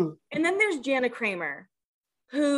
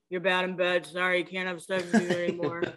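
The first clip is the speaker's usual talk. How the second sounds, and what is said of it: Imitates another person's voice. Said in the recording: “However the fuck he talks. ... Is that a good Jay impression”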